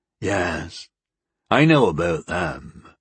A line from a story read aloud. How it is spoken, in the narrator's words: the one-armed man rumbled